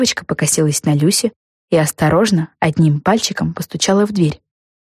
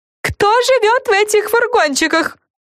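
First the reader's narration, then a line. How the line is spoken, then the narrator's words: Wailing question. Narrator (Russian): взвыла Френ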